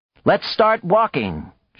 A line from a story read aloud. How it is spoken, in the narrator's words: she cried